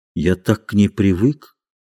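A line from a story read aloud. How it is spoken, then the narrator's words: Quiet. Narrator (Russian): сказал он тихо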